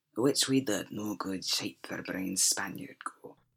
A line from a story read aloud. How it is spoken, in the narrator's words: Shadwell rasped